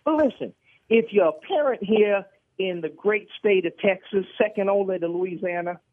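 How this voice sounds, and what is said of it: Brian Kelly impression with accent. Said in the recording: “accent of yours”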